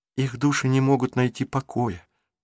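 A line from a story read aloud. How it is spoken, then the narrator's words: Whisper. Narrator (Russian): прошептала Марук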